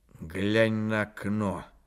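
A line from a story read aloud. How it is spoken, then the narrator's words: Quiet. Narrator (Russian): сказал начальник негромко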